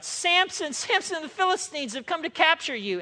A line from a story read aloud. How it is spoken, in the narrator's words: she cried out